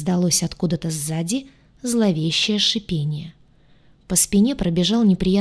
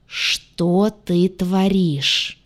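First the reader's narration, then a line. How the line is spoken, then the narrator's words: Angry muffled hiss. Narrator (Russian): Все то же злое шипение откуда-то из-за пуза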